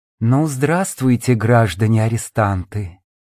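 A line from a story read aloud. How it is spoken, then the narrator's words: Quiet, ingratiating. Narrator (Russian): проговорил вошедший тихим, вкрадчивым голосом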